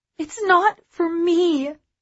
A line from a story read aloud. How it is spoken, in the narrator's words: she said, her voice cracking